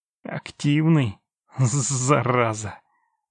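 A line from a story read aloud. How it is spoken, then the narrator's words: Exhaled. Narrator (Russian): выдохнул он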